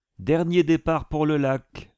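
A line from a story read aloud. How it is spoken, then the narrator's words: Blared through megaphone. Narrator (French): hurla un mégaphone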